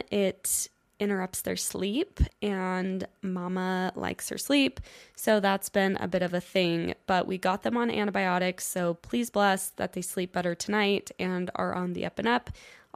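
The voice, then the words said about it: Congested, slightly hoarse sick voice. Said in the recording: “I have a head cold, if you haven't noticed by now... my sicky, kind of hoarse voice”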